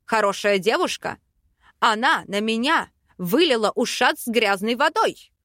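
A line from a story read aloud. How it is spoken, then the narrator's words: Barking roar. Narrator (Russian): Рявкнул Аринель влюбленный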